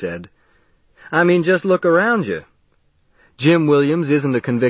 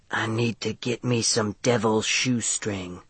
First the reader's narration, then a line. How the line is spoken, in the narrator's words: she said under her breath